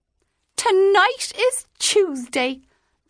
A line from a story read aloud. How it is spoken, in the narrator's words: the woman cried triumphantly